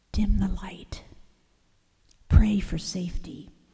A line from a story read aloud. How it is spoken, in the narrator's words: Joseph whispered